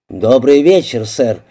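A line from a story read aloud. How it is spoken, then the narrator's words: Plain. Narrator (Russian): ответил инспектор Фокс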